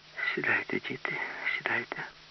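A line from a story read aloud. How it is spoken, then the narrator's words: Repeated in a weak voice. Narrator (Ukrainian): повторювала Алла кволим голосом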